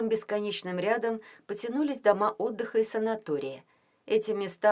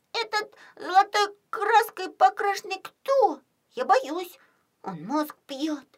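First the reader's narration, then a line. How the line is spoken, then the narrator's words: Squeaky, frightened. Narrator (Russian): пищал Костя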